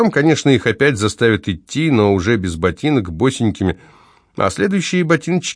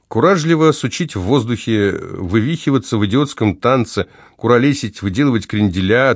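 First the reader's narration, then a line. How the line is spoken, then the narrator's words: Plain. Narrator (Russian): ответил Савва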